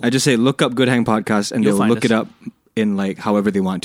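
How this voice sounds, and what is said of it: Hoarse voice. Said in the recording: “I sound so like hoarse... you've been singing all day... I've been singing all fucking week.”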